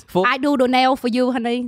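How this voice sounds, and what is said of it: Put-on Vietnamese accent. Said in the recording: “the Vietnamese accent”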